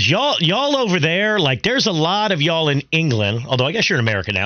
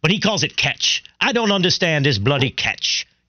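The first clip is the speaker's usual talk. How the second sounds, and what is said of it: Poor attempt at a foreign accent. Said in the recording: “let's leave the accent for our guy Ashley here ... That sounded nothing like Ashley Westwood ... I'm sorry about that attempt to do that accent”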